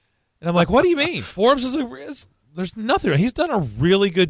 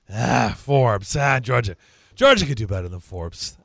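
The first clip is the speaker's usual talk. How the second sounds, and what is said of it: Not-great impression of a colleague. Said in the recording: “it's not a great Julian impression”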